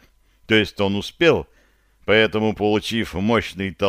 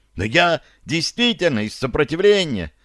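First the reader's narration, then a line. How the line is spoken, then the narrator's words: Desperate cry. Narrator (Russian): в отчаянии выкрикнул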